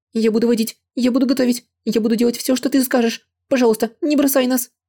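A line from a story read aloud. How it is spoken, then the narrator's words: Shaky pleading voice. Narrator (Russian): подрагивающим голосом заговорила Чэн Яо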